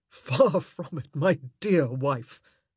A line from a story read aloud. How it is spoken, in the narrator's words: he gasped